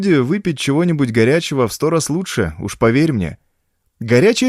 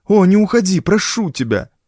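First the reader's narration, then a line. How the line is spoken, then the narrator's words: Pleading. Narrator (Russian): взмолился 44-й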